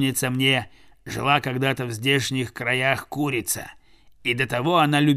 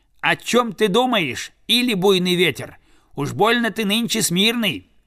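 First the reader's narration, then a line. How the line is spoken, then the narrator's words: Crow's shout. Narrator (Russian): кто-то из стаи крикнул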